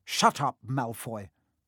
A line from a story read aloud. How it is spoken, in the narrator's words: snapped Parvati Patil